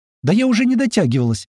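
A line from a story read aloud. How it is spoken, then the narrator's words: Cheerful reply. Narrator (Russian): Так же весело отвечал ему Феодора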